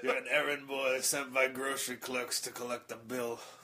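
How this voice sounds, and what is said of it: Imitates another person's voice. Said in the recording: “It's not a very good Brando impersonation. ... It was great”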